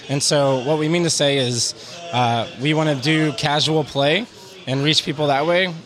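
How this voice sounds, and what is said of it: Strained voice, losing his voice. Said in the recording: “I'm losing my voice, by the way, because we've been at it for a while”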